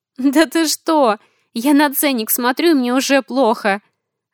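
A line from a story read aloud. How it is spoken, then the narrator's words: Female laughter. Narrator (Russian): рассмеялась я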